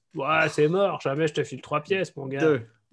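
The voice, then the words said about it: Imitates another person's voice. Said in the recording (French): “Très belle imitation.”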